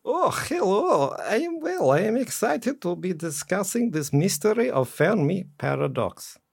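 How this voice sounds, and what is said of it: Put-on Eastern European accent. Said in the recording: “it's in an Eastern European accent ... that stupid voice”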